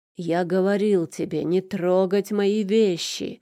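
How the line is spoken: Roared. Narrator (Russian): взревел

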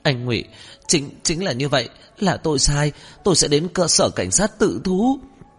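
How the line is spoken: Trembling voice. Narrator (Vietnamese): Ngô Văn Ngọc khai xong run run giọng

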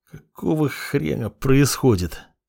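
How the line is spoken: Weak, exhausted moan. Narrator (Russian): слабо простонал я, потому что сил на гневный монолог уже не осталось

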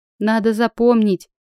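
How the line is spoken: Smirking snort. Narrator (Russian): хмыкнула я

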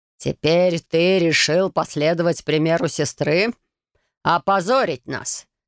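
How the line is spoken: Elderly man's growl. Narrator (Russian): прорычал пожилой мужчина

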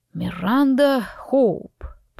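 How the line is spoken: Drawling. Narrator (Russian): протянул он

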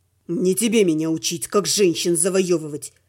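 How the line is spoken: Hissed through clenched teeth. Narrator (Russian): прошипел сквозь стиснутые зубы Слава

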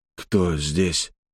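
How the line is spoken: Dry-lipped whisper. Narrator (Russian): пересохшими губами прошептал Алексей

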